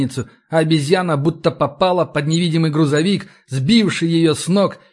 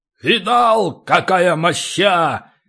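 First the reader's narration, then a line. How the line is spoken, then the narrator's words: Barked. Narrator (Russian): рявкнул он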